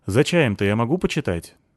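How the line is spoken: Plain question. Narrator (Russian): спросила она

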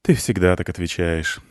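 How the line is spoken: Sighing. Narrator (Russian): вздохнула она

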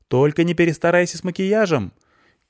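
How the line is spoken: Shouted after someone. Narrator (Russian): крикнул я ей вслед

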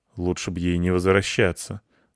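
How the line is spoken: Boy muttering. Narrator (Russian): буркнул кто-то из мальчиков

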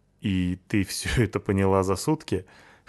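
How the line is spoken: Snorting. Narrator (Russian): хмыкнул я

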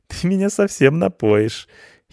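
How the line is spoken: Giggling girl. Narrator (Russian): хихикнула девушка

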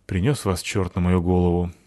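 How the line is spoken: Sighing. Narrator (Russian): вздохнула капитанша

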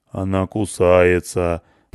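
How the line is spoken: Deep bass voice. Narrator (Russian): пробасил

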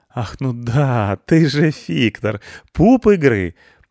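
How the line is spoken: Hurtful laugh. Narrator (Russian): обидно засмеялась Кабальдесса

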